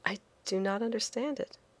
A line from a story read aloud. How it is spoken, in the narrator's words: I said quietly, too proud to show my ignorance